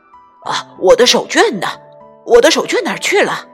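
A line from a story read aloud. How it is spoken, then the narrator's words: Anxious shout. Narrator (Chinese): 爸爸上班要迟到了，他着急的喊着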